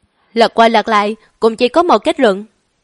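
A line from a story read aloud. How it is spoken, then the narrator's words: Cold smirking. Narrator (Vietnamese): Lãnh Hạ lạnh lùng nhếch miệng, nói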